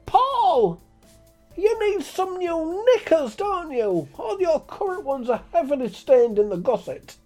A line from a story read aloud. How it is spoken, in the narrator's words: him shout at the top of his voice